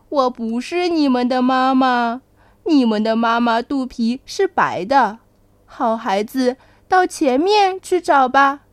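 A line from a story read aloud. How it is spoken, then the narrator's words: Laughing. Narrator (Chinese): 大乌龟笑着说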